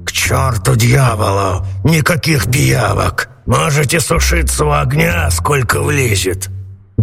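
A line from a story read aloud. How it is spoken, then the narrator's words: Grumbling. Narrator (Russian): Сеньор Карабас-Барабас проворчал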